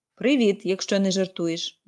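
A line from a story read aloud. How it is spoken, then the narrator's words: Grumbled. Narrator (Ukrainian): буркнув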